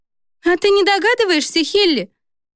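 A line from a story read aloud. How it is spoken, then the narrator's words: Giggling. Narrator (Russian): хихикнула Каролина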